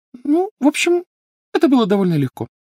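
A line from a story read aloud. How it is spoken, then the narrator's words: Thin, high voice. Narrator (Russian): тонким голосом сообщила Гермиона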